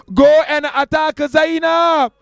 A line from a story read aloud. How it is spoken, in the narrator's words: Umar ibn Sa'd called out